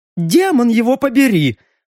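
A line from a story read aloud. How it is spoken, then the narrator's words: Surprised, triumphant exclamation. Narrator (Russian): удивленно и одновременно торжествующе воскликнул змей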